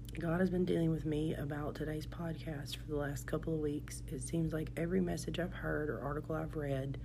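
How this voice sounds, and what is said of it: Congested, muffled, weakened voice. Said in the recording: “my voice is a little bit gone and my nose is all stuffy... I've been sick all week and today is the first day that I've had very much of a voice... if it sounds a little bit muffled”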